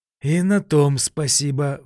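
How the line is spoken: Investigator sighing. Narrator (Russian): вздохнул следователь

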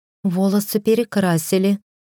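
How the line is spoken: Timid answer. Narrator (Russian): робко ответила Настя

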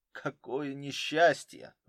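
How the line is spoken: Sighing. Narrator (Russian): вздохнул Денис Петрович

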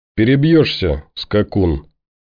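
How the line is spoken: Icy tone. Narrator (Russian): ледяным тоном ответила Наташка

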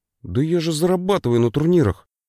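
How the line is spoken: Distracted grumble. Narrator (Russian): буркнул брательник, не отрываясь от монитора

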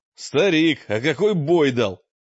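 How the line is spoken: Shouting while running. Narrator (Russian): Мрак на бегу крикнул

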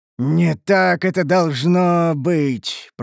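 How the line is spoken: Groaned in pain. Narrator (Russian): простонал гном, вернее, Дуэргар, морщась

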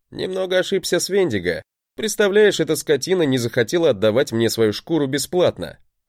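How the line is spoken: Chuckle. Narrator (Russian): хохотнул я

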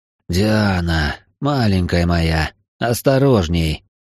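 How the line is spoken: Hoarse. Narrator (Russian): хрипло произнес Ританин

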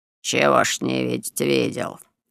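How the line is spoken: Lazy mocking reply. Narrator (Russian): лениво и насмешливо ответил работник

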